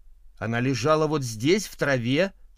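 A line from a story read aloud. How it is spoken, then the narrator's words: Plain. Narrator (Russian): ответила миссис Таунсенд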